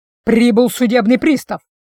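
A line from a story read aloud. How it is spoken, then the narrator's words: Booming voice. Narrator (Russian): произнес он зычным голосом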